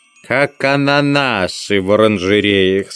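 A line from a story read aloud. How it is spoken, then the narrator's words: Plain. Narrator (Russian): сказал Бегемот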